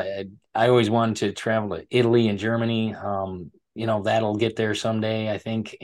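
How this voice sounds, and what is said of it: American accent. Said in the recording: “they love my accent ... they like the American accent”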